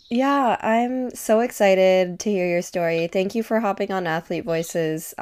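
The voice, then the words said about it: Scratchy, slightly hoarse voice. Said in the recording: “My voice is a little scratchy. I have COVID right now.”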